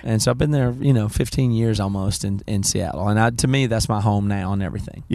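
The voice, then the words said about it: Carolina Southern American accent. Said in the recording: “I like my accent... I like the Carolina. I don't want to say it's an accent”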